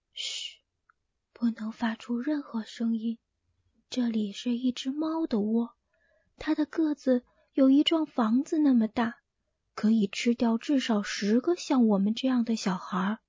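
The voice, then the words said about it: Speaking in a low hushed voice. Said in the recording (Chinese): “低声说”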